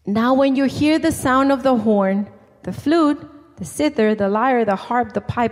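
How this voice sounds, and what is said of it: Speaker's own accent. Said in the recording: “you know my accent.”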